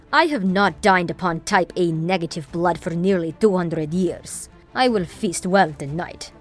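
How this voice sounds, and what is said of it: Heavy Eastern European accent. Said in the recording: “said with a heavy Eastern European accent”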